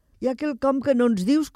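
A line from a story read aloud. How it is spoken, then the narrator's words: Girls laughing while speaking. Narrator (Catalan): començaren a dir les altres nenes rient altra vegada en veure aquella dansa extraordinària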